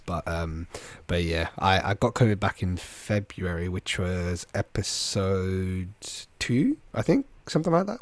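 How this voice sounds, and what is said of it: Congested, stuffy nasal voice. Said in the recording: “hear it in my voice. I'm a little bit bunged up. I got COVID ... clearings of the throat or sniffling”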